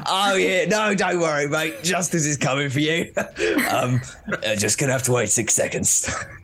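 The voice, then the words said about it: Put-on Australian accent. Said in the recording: “that's the wrong accent ... Australian”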